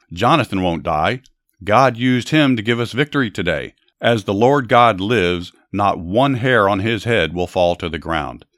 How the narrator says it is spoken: The people shouted

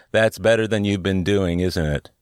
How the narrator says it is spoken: they both laughed very heartily and said

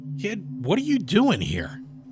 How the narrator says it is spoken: I called out

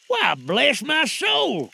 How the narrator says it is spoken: cried Fred

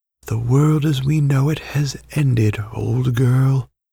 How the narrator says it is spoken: Hypatra whispered

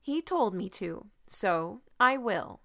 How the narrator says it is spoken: said very firmly

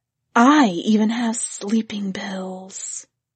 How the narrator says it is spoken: somebody else whispered

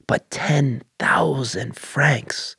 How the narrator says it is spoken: Martine slowly whispered

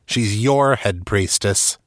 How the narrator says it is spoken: snapped

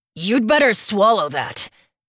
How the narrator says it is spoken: Dax growls

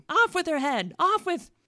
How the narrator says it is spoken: The queen … with fury, … like a wild beast, began screaming

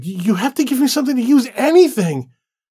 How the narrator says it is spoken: David begged

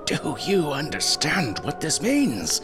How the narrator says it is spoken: he shrieked

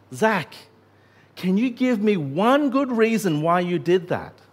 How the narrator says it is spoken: when Tim found his voice again, he gasped

